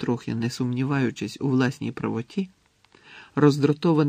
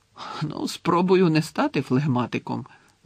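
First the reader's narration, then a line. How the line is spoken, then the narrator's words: Laughing. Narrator (Ukrainian): засміявся Гаррі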